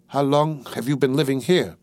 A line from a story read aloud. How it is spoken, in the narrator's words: he asked